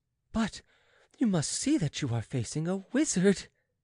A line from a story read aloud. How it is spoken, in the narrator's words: said the Countess, bursting into laughter